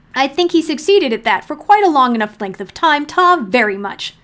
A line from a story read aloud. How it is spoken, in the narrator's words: snapped John, losing his temper